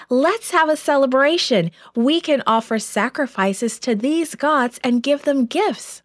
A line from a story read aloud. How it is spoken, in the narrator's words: The people became so excited, they shouted